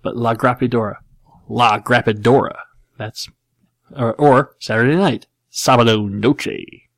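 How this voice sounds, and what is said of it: Imitates another person's voice, terrible Spanish accent. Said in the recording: “George W. Bush. And it's a terrible George Bush, and it's a terrible Spanish accent.”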